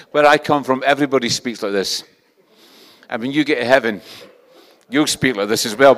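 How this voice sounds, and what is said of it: Scottish accent. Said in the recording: “This is a Scottish accent. It's not an impediment. This is a Scottish accent.”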